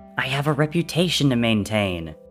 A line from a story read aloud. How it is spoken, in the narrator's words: the War God spat